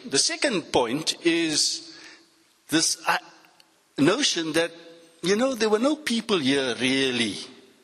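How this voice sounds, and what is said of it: Cape Flats accent. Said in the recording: “my accent that I'm from the Cape Flats”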